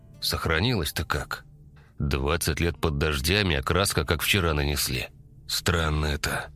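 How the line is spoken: Muttering. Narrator (Russian): пробормотал Степан

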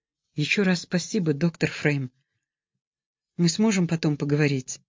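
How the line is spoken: Whispered. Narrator (Russian): она шепнула

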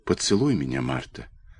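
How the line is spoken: Quiet. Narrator (Russian): тихо проговорил

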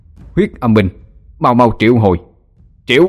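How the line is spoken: Mournful ghostly wailing. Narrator (Vietnamese): Tiếng gào thét thê lương của lũ ma quỷ

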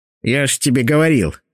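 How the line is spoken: Shaman's snort. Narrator (Russian): фыркнул шаман

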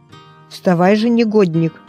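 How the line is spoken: Angry grumbling. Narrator (Russian): проворчал злой голос

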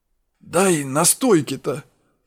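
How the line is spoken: Hoarse wheeze. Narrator (Russian): прохрипел я

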